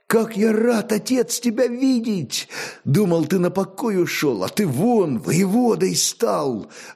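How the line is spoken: Joyful. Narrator (Russian): радостно молвил своему наставнику Огнияр

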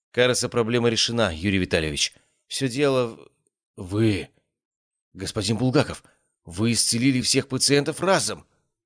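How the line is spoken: Stammering. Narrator (Russian): Заикаясь, произнес Загорский

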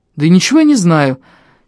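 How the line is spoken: Slightly irritated. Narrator (Russian): чуть раздраженно ответил я

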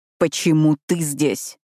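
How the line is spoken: Growling. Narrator (Russian): зарычал Ронан на Альберта

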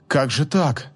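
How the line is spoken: Bewildered mumble. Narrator (Russian): Растерянно пробормотала

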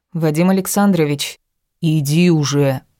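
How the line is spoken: Growl. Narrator (Russian): прорычал

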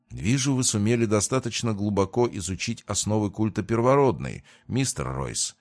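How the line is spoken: Plain. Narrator (Russian): ответил я

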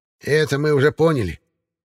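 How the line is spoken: Grumbling old witch. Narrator (Russian): проворчала баба-яга

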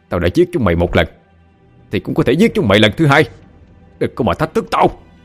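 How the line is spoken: Defiant shout. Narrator (Vietnamese): Hắn miệng hét lên như thách thức

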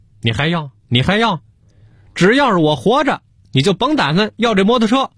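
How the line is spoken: Agitated yelling. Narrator (Chinese): 给小何嚷嚷急了

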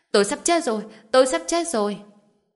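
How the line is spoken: Agonized scream. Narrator (Vietnamese): Hắn ta phát ra một tiếng kêu thảm thiết thê lương, hét lớn

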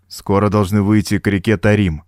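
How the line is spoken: Dry reply. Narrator (Russian): сухо отозвался Фернем

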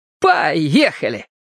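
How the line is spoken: Cheerful. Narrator (Russian): весело сказал

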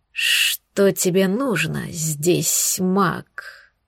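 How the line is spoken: Huge snake hissing. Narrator (Russian): прошипела огромная змея

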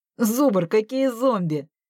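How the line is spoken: Laughing. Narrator (Russian): засмеялся Виталя

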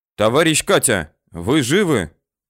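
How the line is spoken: Shout. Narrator (Russian): Тыжных крикнул

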